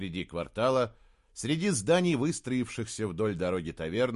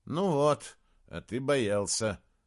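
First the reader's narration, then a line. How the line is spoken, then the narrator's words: Gloomy. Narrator (Russian): мрачно сказал Саймон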